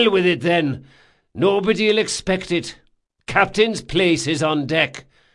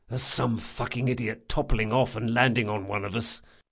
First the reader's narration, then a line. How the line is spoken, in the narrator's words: Jean whispered to Locke